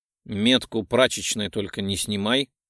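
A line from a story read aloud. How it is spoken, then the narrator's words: Grumbled. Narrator (Russian): проворчал Жуль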